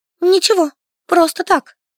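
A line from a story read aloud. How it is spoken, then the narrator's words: Squeaked. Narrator (Russian): пискнула я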